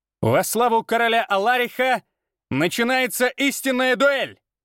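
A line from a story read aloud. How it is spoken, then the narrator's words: Loud proclaiming shout. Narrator (Russian): Прокричал он так, чтобы слышали все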